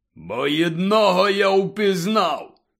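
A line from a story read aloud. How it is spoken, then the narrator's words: Growling. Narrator (Ukrainian): прогарчав Гегріт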